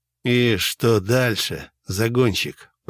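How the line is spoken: Hoarse male. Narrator (Russian): прохрипел он

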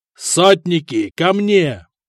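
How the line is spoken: Roaring command. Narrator (Russian): проревел Теодон

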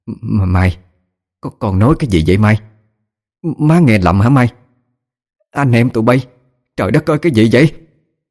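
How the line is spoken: Stunned stammering. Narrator (Vietnamese): Bà Lan chết sững, bà lắp bắp nói

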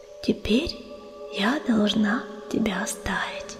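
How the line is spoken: Whisper. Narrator (Russian): прошептала она

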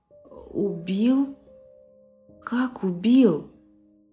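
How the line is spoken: Stammering question. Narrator (Russian): заикаясь, спросил Дмитрий

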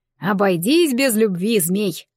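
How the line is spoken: Short laugh. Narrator (Russian): хохотнул Таран

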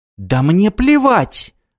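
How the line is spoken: Shouted. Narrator (Russian): закричала Джулия

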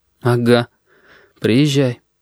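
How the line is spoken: Strained, forced out. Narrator (Russian): выдавил Корнелий

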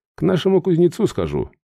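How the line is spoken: Sighing. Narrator (Russian): вздохнул я

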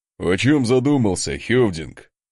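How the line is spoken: Chuckle nearby. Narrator (Russian): хохотнул рядом Асмунд

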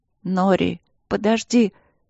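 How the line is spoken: Hoarse, barely audible. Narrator (Russian): хрипло и едва слышно проговорила Ангелина

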